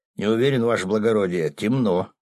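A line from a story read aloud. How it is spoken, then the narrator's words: Plain. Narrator (Russian): ответил начальник охраны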